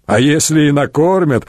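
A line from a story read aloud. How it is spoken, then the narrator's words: Chuckle from unseen speaker. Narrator (Russian): хохотнул тот, что стоял позади, невидимый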